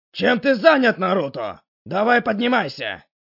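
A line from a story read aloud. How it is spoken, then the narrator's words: Stern bark. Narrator (Russian): Рявкнул Ирука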